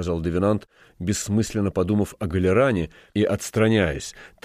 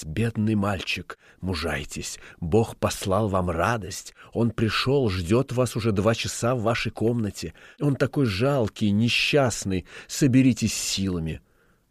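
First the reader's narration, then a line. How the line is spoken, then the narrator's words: Old woman whispering. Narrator (Russian): старуха стала шептать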